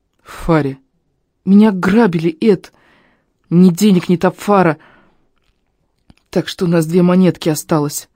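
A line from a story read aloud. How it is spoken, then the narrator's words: Strained. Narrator (Russian): выдавил из себя Фари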